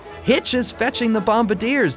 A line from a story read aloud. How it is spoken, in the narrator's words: yelled